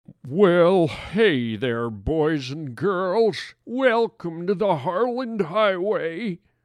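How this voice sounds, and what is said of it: Old farmer character voice. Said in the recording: “why am I talking like an old farmer sitting on his front porch? Just creepy.”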